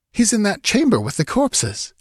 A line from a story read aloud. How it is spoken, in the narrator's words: exclaimed Murillo